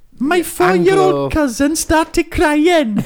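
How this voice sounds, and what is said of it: Attempted Welsh accent. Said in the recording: “I'm trying to think of a Welsh accent now.”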